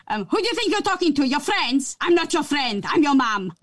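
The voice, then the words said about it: Imitates mother's scary accent. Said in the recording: “That's a scary accent right there... that's a scary mom accent”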